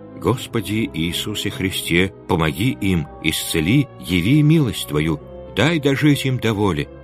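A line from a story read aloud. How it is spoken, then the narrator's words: Continuous whispering. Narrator (Russian): беспрерывно шептал он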